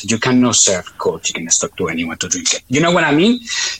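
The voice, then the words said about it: Heavy foreign accent. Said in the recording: “my heavy accent”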